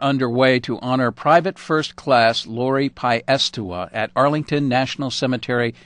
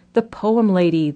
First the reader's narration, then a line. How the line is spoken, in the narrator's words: they cried